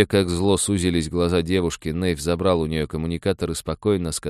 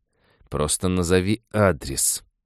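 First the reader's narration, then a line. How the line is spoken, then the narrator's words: Hissed through teeth. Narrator (Russian): сквозь зубы прошипела свитари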